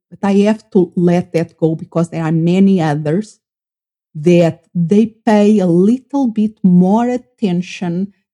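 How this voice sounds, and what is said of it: Non-native English accent. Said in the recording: “the one with the accent ... she has a lovely accent”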